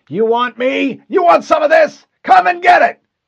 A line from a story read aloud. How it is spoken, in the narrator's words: The Marine in the passenger seat yelled